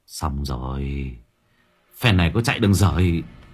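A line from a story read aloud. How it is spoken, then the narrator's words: Muttering. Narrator (Vietnamese): Mặc lẩm bẩm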